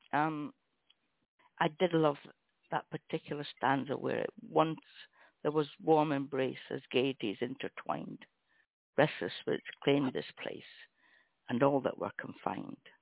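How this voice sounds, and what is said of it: Hoarse, fading voice. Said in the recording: “losing my voice”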